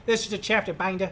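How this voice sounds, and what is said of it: Cartoon character voice, Boston-style accent. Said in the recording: “I can never do a Boston accent unless it's like Peter Griffin from Family Guy ... I started doing Peter Griffin's voice”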